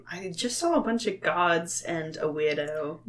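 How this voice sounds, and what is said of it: Poorly done put-on accent. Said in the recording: “Your accent is shit.”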